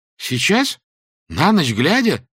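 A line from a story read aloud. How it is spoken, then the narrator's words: Frightened exclamation. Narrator (Russian): воскликнул он испуганно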